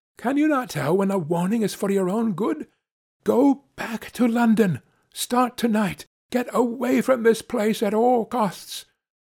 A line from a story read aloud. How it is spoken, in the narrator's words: she cried